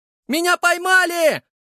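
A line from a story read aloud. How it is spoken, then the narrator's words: Yelled. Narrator (Russian): заорал парень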